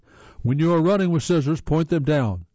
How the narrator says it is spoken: I called out as he ran by

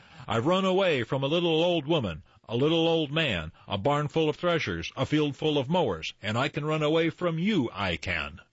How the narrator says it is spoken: He called out to her

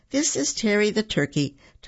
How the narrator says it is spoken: Tommy said, stifling a laugh

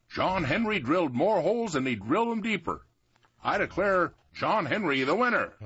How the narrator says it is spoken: the mayor said in a loud voice

